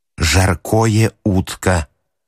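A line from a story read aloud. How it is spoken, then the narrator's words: Menacing hiss. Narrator (Russian): Грозно шипел он через ют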